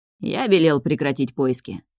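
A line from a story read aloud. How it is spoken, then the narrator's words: Dull, muffled. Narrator (Russian): отвечает глухо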